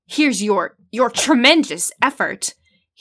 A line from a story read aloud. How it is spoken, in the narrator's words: He screamed